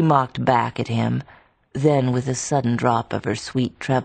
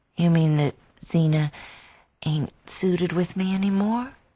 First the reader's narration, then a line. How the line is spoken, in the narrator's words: she faltered